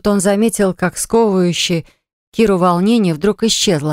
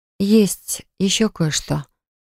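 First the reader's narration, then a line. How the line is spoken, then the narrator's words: Quiet female voice. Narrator (Russian): сказала она тихо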